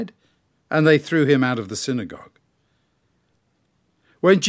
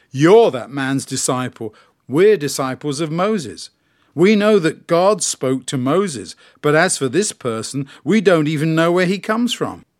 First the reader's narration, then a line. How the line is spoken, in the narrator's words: They shouted abuse at him and said